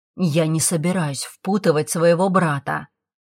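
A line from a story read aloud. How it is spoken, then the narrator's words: Through gritted teeth. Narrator (Russian): процедил сквозь зубы старший Фрост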